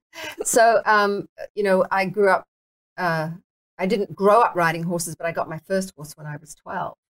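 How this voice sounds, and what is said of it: Mixed British, Australian, American accent. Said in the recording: “my accent's so screwed up. You know, it's a little bit British, a little bit Australian, a little bit American”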